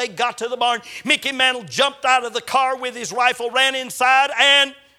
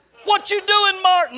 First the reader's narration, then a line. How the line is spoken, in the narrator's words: Mickey Mantle yelled